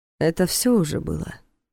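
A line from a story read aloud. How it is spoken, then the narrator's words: Calm statement, borrowed voice. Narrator (Russian): спокойно заявил тот его голосом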